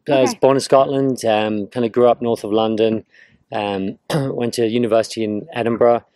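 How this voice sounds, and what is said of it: Scottish-British accent. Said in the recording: “You got an accent. You're Scottish by birth?”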